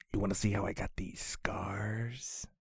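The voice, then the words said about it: Joker character voice impression. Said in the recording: “get ready for my Joker impression”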